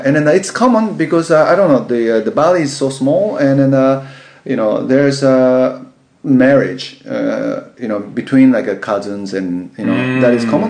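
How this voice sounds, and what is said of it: Speaker with a noticeable accent. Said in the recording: “See, my accent, but add 20% more”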